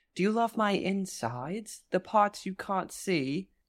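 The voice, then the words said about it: Bad put-on English accent. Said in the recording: “My English accent is as bad as Sarah Michelle Gellar's.”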